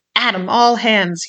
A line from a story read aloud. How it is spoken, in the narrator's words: he roared, in a voice of thunder